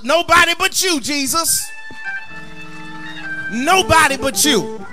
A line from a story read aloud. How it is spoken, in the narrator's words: the preacher came around the front and hollered